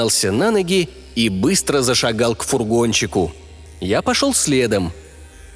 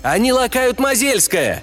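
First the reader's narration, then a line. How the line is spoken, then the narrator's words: Yell. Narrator (Russian): завопил я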